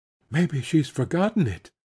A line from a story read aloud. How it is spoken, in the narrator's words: Matty said in a tremulous whisper